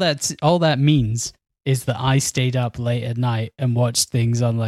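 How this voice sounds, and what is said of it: Usual voice. Nothing is said of it.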